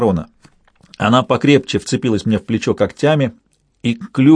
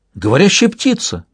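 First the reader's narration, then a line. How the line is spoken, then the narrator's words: Exclamation. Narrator (Russian): воскликнул Персеверанс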